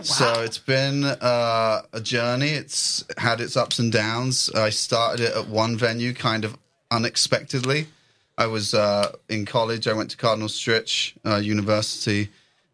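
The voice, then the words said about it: Noticeable non-local accent. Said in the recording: “I'm not from here. ... the way I speak as well, so people tell me I have an accent.”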